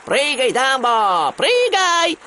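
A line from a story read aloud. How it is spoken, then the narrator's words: Clowns shouting. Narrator (Russian): кричали клоуны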